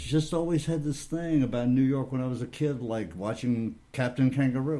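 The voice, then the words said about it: Southern US accent. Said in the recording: “You're really a Southern boy. I can still hear the accent in your voice. It's there.”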